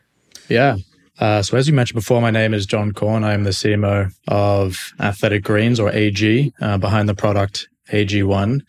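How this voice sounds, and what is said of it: Mild Australian accent. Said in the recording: “Love your accent. ... Where in Australia are you from? ... So the accent's not as strong as some other Aussies out there.”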